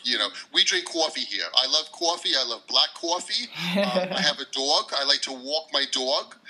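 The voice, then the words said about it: New York accent. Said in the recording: “That is an expert New York accent.”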